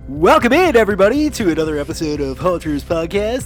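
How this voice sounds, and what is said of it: Exaggerated radio announcer voice. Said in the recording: “that's my radio voice, buddy. This is how I talk.”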